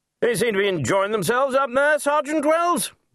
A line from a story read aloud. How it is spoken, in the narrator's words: he shouted over the din